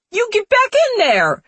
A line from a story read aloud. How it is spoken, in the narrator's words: She shrieks